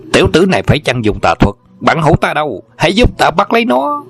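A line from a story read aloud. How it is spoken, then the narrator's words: Angry loud shout. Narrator (Vietnamese): Hà Chấn Viễn tức giận thét lớn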